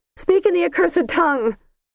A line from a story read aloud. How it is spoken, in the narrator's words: shouted the princess from within